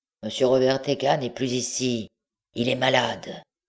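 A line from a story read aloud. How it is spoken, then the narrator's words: Grumbled, muffled reply. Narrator (French): La voix grogna et répondit sourdement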